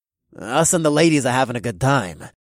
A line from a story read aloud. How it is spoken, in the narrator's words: the third man said, and his upper lip curled into a snarl